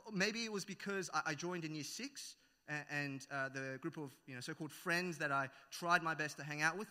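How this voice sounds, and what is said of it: Thick Australian accent. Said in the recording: “I have a very thick Australian accent now”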